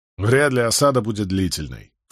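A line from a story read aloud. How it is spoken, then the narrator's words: Dismissive snort. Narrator (Russian): фыркнул Барак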